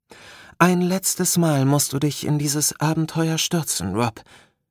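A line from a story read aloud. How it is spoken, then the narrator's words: Soothing voice. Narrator (German): erwiderte Aeya mit beruhigender Stimme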